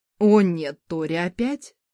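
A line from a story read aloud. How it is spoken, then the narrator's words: Groaning husband. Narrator (Russian): простонал ее муж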